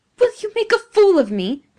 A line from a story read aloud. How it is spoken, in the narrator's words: cried Giovanni passionately